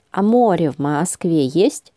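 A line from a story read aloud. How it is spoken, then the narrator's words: Plain. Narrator (Russian): спросил Леня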